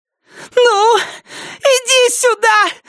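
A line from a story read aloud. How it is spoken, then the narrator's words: Shrill squeal. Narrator (Russian): взвизгнула она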